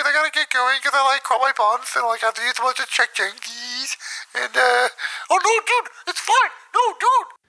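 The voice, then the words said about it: Imitates another person's voice. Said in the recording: “Furter crupped his buns at the end of that call ... that was me again ... that was a sick impression”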